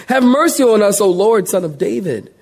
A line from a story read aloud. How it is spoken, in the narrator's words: they cried out saying